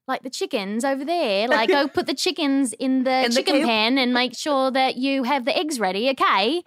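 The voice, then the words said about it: Put-on Cockney English accent. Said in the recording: “the English accent with the dialects within, like the Cockney ... It's very Cockney”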